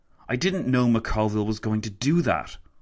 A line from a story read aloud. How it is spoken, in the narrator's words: Lloyd George spat